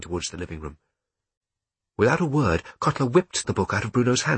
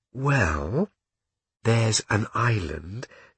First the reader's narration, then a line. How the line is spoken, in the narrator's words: said Bruno slowly to make sure that the soldier could keep up